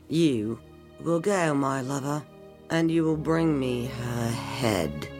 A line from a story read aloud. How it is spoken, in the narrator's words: stated flatly through clenched teeth